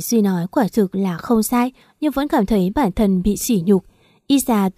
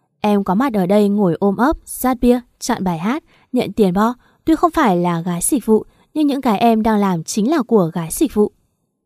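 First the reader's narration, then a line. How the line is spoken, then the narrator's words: Amused, laughing. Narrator (Vietnamese): Duy nghe vậy lại bật cười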